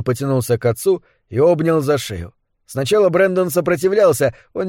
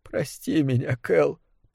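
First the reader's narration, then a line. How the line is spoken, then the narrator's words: Tearful mutter. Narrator (Russian): пробормотал Брэндон сквозь слезы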